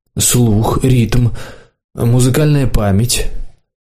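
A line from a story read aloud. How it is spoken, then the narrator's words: Old man sighing. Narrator (Russian): Старичок вздохнул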